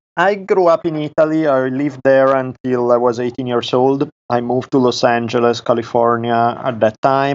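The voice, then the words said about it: Italian accent. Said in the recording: “my Italian accent never leaves me”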